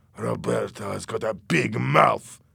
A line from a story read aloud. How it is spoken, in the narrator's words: Louis said angrily